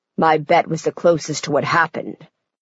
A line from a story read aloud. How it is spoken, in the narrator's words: growls Rafi